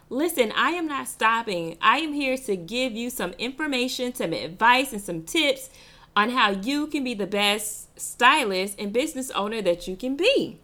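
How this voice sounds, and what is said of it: Excited, energetic voice. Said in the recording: “I'm excited. I'm sure you can hear it in my voice.”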